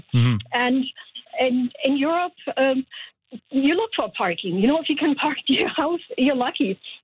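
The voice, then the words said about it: European accent. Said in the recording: “as you can tell from my accent, I came from Europe”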